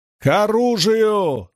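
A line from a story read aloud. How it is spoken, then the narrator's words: Yell. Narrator (Russian): заорал Мэтт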